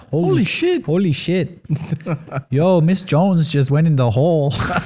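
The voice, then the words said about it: Put-on generic nonspecific accent. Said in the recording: “my universal accent. Non-denominational accent.”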